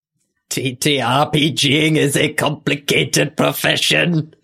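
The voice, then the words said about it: Emperor Palpatine impression. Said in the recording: “Can you say that in your Werner Herzog voice? ... No, that's Emperor Palpatine.”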